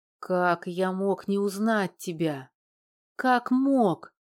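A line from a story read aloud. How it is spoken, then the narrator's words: Breathed out. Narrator (Russian): выдохнул Федор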